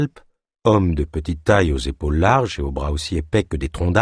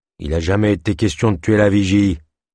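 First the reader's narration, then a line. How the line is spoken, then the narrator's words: Stubborn grumble. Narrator (French): grommela Kalp, buté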